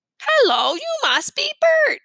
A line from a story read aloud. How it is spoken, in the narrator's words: he said in his best Sesame Street voice